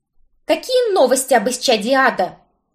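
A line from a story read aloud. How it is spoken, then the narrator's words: Barked. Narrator (Russian): рявкнула я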